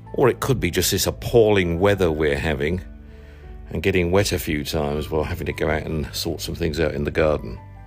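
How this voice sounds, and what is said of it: Voice with a sore throat. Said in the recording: “I think you can tell I've got a little bit of a sore throat.”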